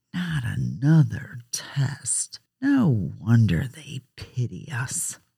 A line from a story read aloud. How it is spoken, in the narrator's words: A student in the background said, under his breath